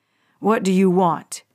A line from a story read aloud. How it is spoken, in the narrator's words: growled